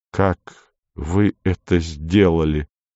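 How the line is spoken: Asked in an undertone. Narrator (Russian): спросил вполголоса

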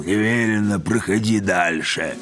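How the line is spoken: Hoarse rasp. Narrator (Russian): солдат прохрипел

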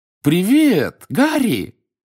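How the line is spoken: Joyful exclamation. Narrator (Russian): радостно воскликнул мистер Уизли

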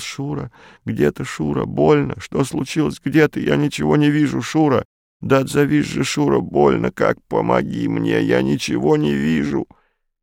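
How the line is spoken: Woman's pained moan. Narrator (Russian): жути знакомый женский голос простонал

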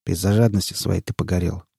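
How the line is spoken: Cold. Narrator (Russian): холодно сказал Редрик

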